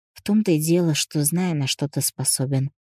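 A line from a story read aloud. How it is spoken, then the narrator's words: Sighing. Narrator (Russian): вздохнула я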